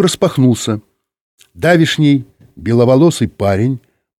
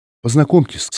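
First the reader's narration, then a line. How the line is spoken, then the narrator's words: Trembling voice. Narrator (Russian): сказала она дрожащим голосом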